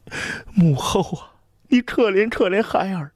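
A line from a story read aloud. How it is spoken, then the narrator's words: Choked tearful cry. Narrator (Chinese): 长公主声音就哽咽了，随口又喊了一句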